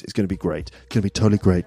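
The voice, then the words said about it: Imitates another person's voice. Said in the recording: “that impression? ... I slightly slipped into a Donald Trump impression”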